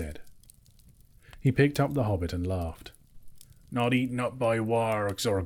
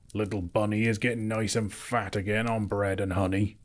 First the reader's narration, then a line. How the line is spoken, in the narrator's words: he chuckled